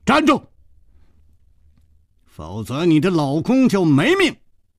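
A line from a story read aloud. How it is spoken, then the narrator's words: Shout. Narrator (Chinese): 只听楚留香喊道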